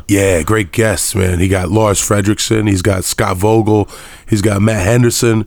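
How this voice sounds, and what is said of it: Deep, sick-sounding voice. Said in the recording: “apologize for my voice. I'm a little sick right now ... When I'm sick, I really get down deep”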